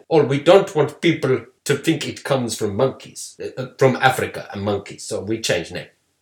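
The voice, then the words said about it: Inconsistent put-on accent. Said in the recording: “Our Ted Ross accent, I can only apologise for. I realise that it's all over the place. It goes from like corner shop owner to Dr. Evil to...”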